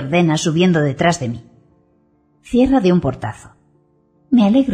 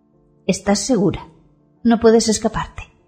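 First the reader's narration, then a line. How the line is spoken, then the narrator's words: Whispered. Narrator (Spanish): me susurra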